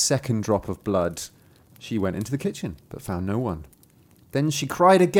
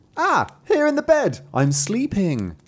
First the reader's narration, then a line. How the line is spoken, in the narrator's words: cried the third drop of blood